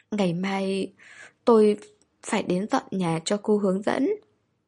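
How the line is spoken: Sobbing breathlessly. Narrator (Vietnamese): Hàn Gia Khang khóc không ra hơi nữa, nức nở nói

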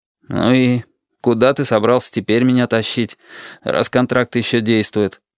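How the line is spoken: Gloomy question. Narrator (Russian): Мрачно поинтересовался я

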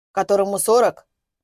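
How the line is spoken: Snorting hmph. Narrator (Russian): хмыкнул Суворкин

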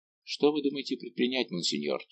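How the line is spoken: Plain. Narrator (Russian): спросил Гурвиль

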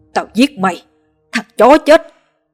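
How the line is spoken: Furious screaming. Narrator (Vietnamese): Cơn giận bùng lên não, hắn ta gào lên

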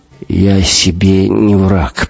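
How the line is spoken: Hoarse rasp. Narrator (Russian): прохрипел Гумилев

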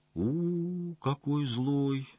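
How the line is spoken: Thoughtful drawl. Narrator (Russian): задумчиво протянул посетитель

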